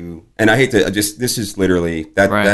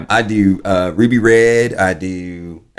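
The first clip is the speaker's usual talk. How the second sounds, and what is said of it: Silly put-on Southern-style accent. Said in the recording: “That accent is just, that's my idiot fun accent ... It's not Gomer not Pyle”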